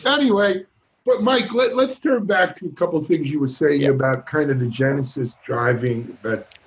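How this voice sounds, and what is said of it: New York accent. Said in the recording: “Who's this Jewish guy with the New York accent? ... they make fun of my accent.”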